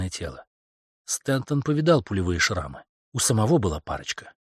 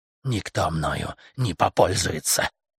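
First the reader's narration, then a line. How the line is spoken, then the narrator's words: Growling. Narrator (Russian): По-английски прорычала она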